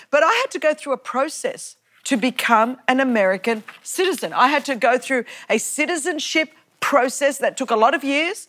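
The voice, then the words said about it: Australian accent. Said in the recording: “I still don't have the accent, y'all. ... I don't have the accent. I'm bringing a bit of Australian sassy accent”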